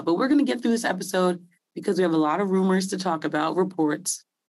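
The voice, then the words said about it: Raspy voice. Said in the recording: “my voice is a little raspy ... Not the best voice right now”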